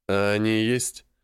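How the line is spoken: Gloomy question. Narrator (Russian): Мрачно спросил я, как раз читавший дискуссию по поводу того, что думает о моем ухаживании за внучкой старшей Мальцев

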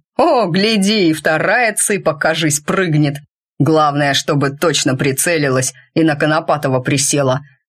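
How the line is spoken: Plain. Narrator (Russian): ответили ему

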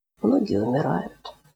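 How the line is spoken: Quiet, child. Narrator (Russian): тихо добавил мальчик

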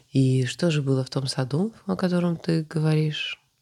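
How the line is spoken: Calm, hiding interest. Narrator (Russian): спокойно уточнил правитель, стараясь скрыть свою заинтересованность

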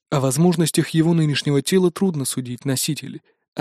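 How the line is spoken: Plain. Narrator (Russian): ответил тот

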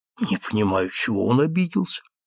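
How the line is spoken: Whispered. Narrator (Russian): шепнул

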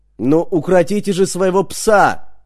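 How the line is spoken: Shouting. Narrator (Russian): заорала

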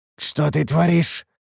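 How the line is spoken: Hoarse wheeze, coughing blood. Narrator (Russian): прохрипел я, кашлянув кровью

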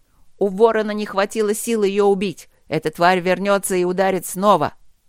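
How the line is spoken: Shouted. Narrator (Russian): крикнул Трот

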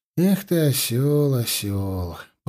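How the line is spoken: Drawn-out sighing. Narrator (Russian): протянул он со вздохом

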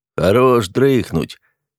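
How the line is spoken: Grumbled close to ear. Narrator (Russian): пробурчал над ухом наставник

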